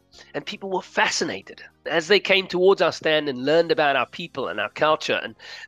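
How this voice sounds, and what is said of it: South African Cape Town accent. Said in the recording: “where's that accent from? ... it's from Cape Town, South Africa”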